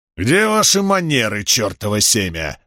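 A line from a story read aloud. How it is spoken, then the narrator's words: Barking. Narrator (Russian): рявкнул трактирщик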